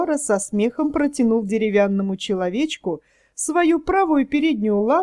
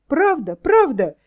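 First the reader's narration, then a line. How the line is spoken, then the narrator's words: Joyful exclamation. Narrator (Russian): воскликнул деревянный человечек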